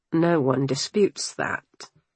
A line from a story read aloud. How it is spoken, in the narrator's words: Church replied with a long-suffering sigh